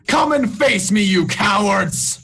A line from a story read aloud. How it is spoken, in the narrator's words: shout